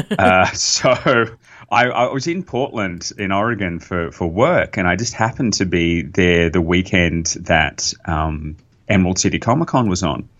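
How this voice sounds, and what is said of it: Australian accent. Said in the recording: “you can hear my accent, which is I'm not from Seattle ... the Australian”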